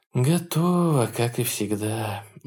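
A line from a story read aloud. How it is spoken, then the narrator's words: Sighing. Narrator (Russian): вздохнула она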